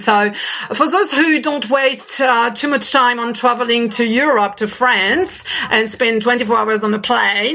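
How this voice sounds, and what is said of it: French accent. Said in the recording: “as you can hear from my French accent”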